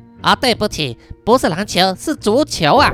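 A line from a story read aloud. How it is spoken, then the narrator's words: Child speaking. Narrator (Chinese): 那两个孩子其中一个又说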